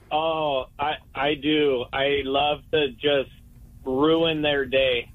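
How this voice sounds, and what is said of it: Usual voice. Nothing is said of it.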